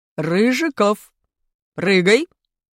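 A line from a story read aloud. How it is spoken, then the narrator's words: Stern command, PE teacher. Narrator (Russian): скомандовал строгим голосом наш учитель физкультуры Валентин Васильевич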